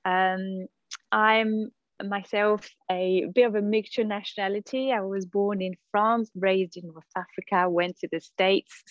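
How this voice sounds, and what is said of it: Hard-to-place mixed foreign accent. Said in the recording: “If you hear my accent, a lot of people can't really tell where I'm from”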